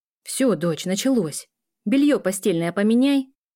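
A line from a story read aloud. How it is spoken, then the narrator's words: Mother shouting while running off. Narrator (Russian): Крикнула мама, убегая к себе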